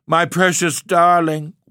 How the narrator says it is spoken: wailed the mother

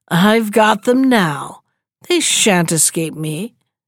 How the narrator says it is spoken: she laughed maliciously and said jeeringly

